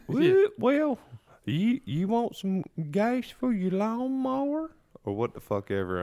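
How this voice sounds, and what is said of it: Exaggerated put-on Southern accent. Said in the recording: “you made like a completely new accent for your Southern accent.”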